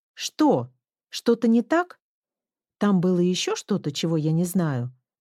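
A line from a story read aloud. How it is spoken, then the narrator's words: Flared-up exclamation. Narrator (Russian): вспыхнув как огонек, воскликнула Рэйчел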